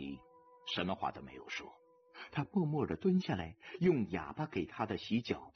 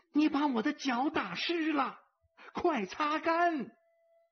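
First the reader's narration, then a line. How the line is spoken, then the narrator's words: Loud elephant voice. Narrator (Chinese): 大象在大声说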